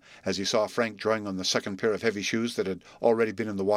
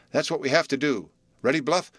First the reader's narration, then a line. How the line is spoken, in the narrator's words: cried Frank